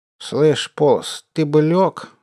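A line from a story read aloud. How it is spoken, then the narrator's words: Plain. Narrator (Russian): сказал барон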